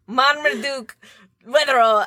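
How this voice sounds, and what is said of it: Put-on Scottish accent. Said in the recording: “Say it in a Scottish accent ... our flawless Scottish accents”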